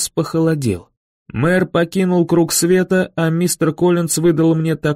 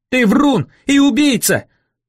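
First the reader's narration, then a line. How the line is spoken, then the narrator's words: Full-throated yell. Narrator (Russian): заорал я во всю глотку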